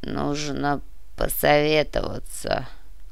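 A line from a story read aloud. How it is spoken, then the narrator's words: Muffled, hollow. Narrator (Russian): глухо произнес князь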